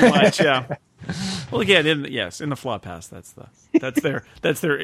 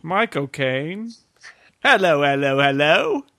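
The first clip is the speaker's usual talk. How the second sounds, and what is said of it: Bad generic English accent. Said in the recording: “generic bad English accent”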